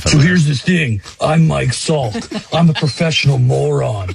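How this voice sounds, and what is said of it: Jim Rome impression. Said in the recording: “doing a Jim Rome impression ... It sounds a little like one.”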